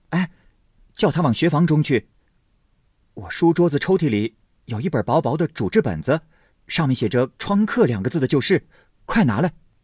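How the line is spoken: Hurried instruction. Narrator (Chinese): 宝玉连忙叫人传话

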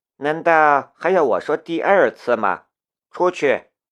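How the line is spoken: Flat, indifferent. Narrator (Chinese): 申屠天音淡淡的道

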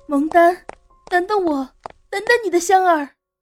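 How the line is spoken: Hurried shouting while running. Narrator (Chinese): 香妃急忙边追边喊

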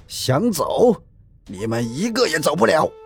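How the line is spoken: Loud shout. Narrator (Chinese): 龙鹰大声喊道

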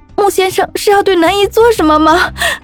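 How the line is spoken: Tearful pleading. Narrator (Chinese): 我哭求司机

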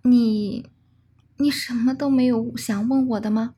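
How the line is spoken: Helpless, sad smile. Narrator (Chinese): 他露出一丝无奈而凄然的笑容

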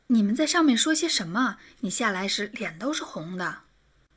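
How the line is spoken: Quiet question. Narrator (Chinese): 魏兰小声的问他

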